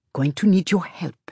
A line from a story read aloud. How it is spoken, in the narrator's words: she says softly